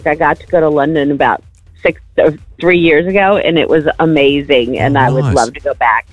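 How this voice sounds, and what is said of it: American accent. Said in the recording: “You've got a beautiful accent. Are you Canadian? ... I am from the United States of America in Kansas.”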